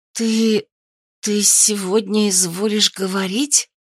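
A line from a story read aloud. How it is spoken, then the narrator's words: Strained hoarse wheeze. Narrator (Russian): Просипела я, с трудом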